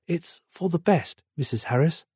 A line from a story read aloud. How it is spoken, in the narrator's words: the lady say in a hushed tone